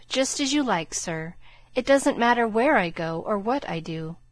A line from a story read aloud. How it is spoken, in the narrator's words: He sighed, and then said in a spiritless tone